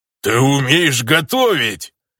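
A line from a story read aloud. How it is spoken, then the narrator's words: Booming orc voice. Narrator (Russian): Прогудел орк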